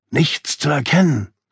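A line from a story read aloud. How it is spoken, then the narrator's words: Whisper. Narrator (German): flüsterte ich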